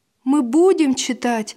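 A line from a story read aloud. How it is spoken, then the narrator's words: Joyful promise. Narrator (Russian): радостно пообещал Василь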